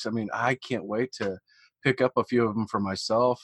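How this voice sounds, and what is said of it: Missouri accent. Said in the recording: “I'm hearing my Missouri accent now”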